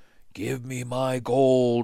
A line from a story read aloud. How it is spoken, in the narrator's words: he whispered